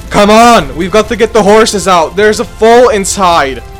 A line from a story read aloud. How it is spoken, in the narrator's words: shouted